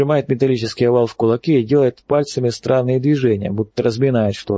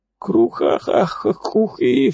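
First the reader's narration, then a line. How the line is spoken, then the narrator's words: Sobbing. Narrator (Russian): всхлипывает пророк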